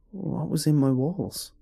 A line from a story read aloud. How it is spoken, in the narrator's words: asked, my voice shaking